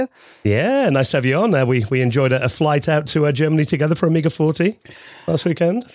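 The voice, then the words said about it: Slightly hoarse voice. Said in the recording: “I'm still slightly hoarse from that event”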